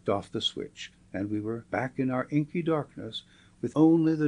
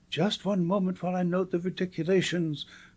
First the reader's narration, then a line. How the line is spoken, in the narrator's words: cried the naturalist